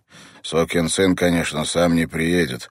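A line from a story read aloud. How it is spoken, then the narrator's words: Grumbling. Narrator (Russian): пробурчал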